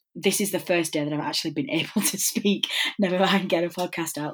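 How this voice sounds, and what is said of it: Voice sounds ill. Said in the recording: “as I'm sure you can hear from my voice, I have succumbed to what feels like the bubonic plague”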